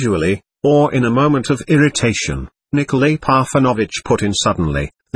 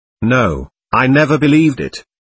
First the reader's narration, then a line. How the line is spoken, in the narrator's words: she answered firmly